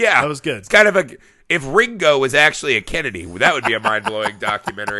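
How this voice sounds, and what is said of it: Usual voice. Nothing is said of it.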